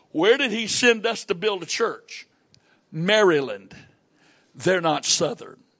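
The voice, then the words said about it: Southern US accent. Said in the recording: “my accent says I'm from the southern part of the United States”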